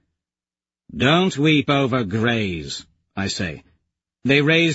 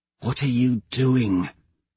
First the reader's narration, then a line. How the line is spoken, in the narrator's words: Severo whispers in my ear